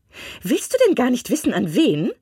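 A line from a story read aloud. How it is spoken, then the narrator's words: Impatient wife calling. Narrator (German): rief seine Frau ungeduldig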